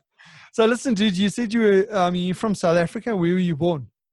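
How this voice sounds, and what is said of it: South African Transvaal accent. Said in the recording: “I've got the I've got the Vali accent.”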